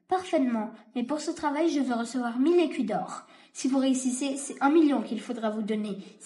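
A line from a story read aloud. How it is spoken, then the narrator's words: Exclaimed. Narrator (French): s'exclama le bourgmestre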